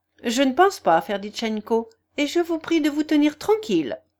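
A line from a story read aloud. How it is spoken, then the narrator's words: Curt, dry. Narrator (French): observa sèchement Nastasia Philipovna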